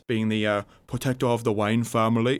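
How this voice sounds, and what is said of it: Poor Michael Caine impression. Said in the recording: “that was a terrible Michael Caine impression.”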